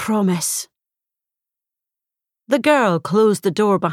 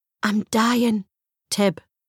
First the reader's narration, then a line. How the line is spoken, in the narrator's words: she whispered